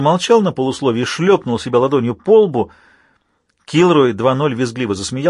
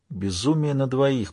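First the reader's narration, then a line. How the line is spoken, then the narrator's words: Whispered. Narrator (Russian): прошептал Джей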